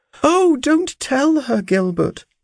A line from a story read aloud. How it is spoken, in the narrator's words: cried she